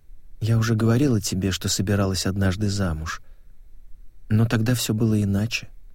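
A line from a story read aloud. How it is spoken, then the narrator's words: Quiet voice. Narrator (Russian): она произнесла негромко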